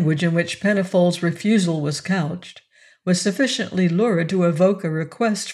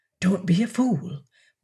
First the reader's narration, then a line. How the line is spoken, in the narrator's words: Blunt whispered